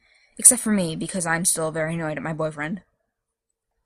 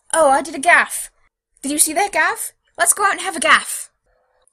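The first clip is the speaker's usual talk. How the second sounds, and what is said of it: Bad mocking British accent. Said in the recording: “mocking him in a bad British accent.”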